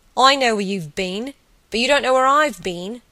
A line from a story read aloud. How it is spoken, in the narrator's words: had exclaimed with peals of laughter